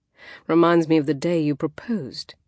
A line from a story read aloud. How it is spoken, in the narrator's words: he said with a happy chuckle